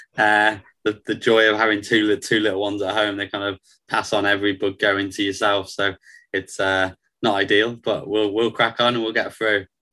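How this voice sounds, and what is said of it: Croaky voice. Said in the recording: “My voice is a bit croaky today”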